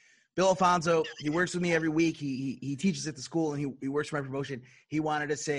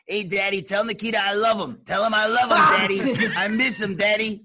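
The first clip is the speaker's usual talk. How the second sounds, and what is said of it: Imitates another person's voice. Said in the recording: “You do a pretty good imitation”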